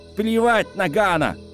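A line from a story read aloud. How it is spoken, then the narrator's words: Shout. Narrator (Russian): крикнул Мэри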